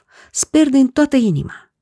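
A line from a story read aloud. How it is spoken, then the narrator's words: Shouting. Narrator (Romanian): striga Iacov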